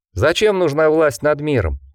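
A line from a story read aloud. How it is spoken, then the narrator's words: Cheerful question. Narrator (Russian): весело спросил Морган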